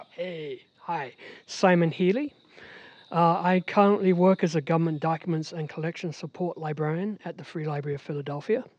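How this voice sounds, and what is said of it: Non-American accent. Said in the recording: “I've been trying to get rid of this accent for 35 years now.”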